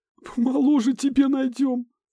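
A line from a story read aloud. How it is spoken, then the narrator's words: Laughing through tears. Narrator (Russian): Сквозь слезы засмеялась ее сестра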